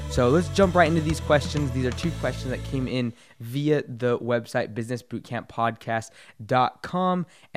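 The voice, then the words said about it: Hoarse, strained voice. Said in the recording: “sorry for my voice. It's a little bit shot ... forgive the bad throat quality and sound”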